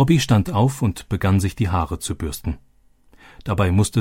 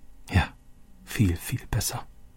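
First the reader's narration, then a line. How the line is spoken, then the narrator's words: Quiet. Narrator (German): sagte Roberto leise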